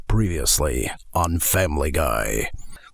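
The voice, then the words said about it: Low, raspy, ominous announcer voice. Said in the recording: “doing the previous voice. Just get it low, get a little bit of rasp to it”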